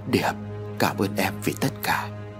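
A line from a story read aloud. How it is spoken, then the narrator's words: Softly. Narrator (Vietnamese): Ông Hải khẽ nói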